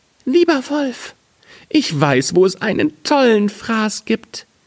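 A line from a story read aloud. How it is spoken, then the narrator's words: Muffled call from inside belly. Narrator (German): rief ihm aus dem Wanst zu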